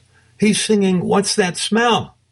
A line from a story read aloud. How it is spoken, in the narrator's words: I shouted